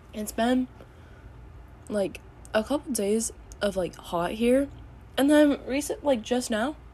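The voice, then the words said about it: Voice cutting in and out. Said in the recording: “my voice keeps going in and out”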